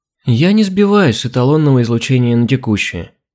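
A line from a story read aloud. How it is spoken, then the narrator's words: Upset sigh. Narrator (Russian): расстроенно вздохнула Алина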